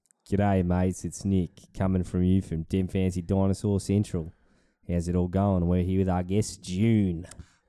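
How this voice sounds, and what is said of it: Bad Hollywood-style Australian accent. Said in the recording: “I'm doing that really bad American Australian accent that they do in Aussie movies. ... American movies.”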